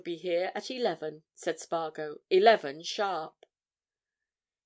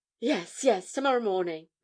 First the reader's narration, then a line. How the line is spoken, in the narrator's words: replied Elphick eagerly